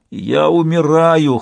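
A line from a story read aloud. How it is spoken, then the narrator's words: Hoarse complaint. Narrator (Russian): хрипло пожаловался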